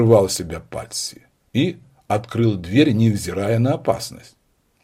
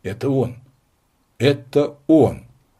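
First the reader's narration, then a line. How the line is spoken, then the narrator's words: Angry exclamation. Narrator (Russian): злобно воскликнул Патси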